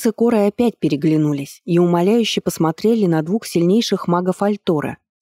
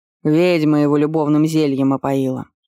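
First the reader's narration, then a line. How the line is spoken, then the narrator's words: Tired explanation. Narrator (Russian): устало пояснил муж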